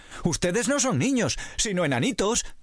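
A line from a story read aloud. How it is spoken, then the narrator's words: Exclaiming. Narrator (Spanish): exclamó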